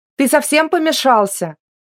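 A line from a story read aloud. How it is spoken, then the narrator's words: Female shout. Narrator (Russian): крикнула она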